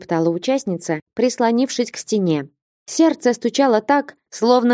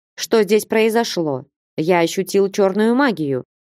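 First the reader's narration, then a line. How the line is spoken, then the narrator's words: Dragon's menacing question. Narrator (Russian): грозно осведомился дракон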